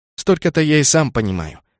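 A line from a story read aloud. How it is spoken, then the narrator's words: Snapping back. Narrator (Russian): огрызнулся Кеннет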